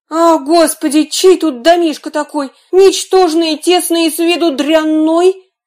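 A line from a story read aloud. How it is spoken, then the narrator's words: Princess exclaiming. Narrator (Russian): королевна воскликнула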